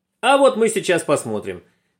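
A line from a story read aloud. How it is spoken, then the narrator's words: Group shouting. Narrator (Russian): закричали ребята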